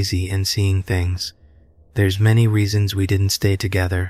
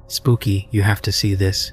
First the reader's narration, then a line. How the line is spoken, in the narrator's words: he said